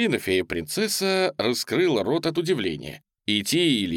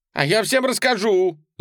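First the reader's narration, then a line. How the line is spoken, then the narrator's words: Loud yell. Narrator (Russian): заорал он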